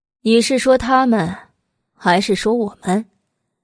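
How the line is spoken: Cool drawling question. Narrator (Chinese): 百里玉华淡淡的拉了长音，问道

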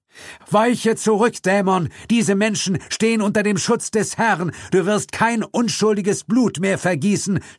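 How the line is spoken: Shouted. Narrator (German): schrie

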